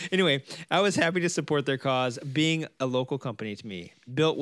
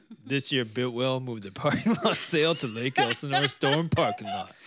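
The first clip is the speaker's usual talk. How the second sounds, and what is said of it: Impression of another man's voice. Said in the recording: “let me do my Paul impression. ... Here's my Paul impression.”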